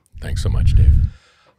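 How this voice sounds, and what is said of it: Bedroom voice. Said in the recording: “Early in the morning, you got the bedroom voice going right out of the gate.”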